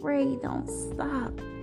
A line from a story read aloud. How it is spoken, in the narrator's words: I was moaning